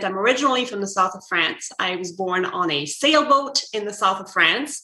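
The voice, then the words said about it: French accent. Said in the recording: “If you can hear my French accent,”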